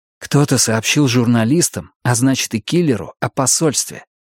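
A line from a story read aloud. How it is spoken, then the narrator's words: Young man whispering. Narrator (Russian): прошептал молодой полицейский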